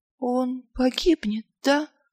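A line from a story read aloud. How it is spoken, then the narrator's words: Soft whisper. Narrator (Russian): тихо прошептала Ангва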